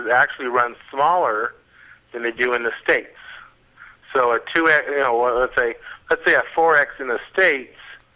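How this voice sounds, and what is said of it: American accent. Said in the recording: “the guy with the American accent”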